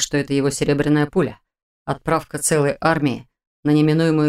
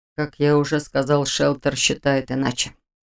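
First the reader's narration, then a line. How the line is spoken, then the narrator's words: Calm objection. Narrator (Russian): спокойно возразил Маран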